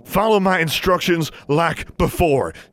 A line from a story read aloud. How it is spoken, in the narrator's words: he said urgently